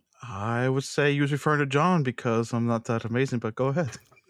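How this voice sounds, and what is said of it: Distinctive accent, possibly Scottish. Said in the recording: “That accent's quite amazing to me ... he's the Scotty of our group”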